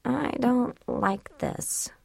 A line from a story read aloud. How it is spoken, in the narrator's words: she murmured